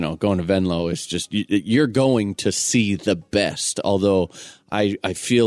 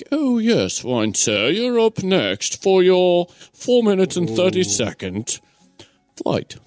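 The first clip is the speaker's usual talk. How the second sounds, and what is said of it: Poor put-on British accent. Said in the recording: “Wasn't even like a decent accent. ... what kind of accent was that? ... is that what they really think we sound like?”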